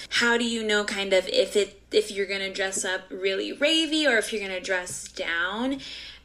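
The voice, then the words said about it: Noticeable regional accent. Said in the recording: “I love your accent. So cute.”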